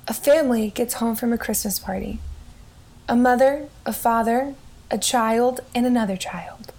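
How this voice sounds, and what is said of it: Put-on serious narrator voice. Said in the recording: “I was trying to do my serious voice.”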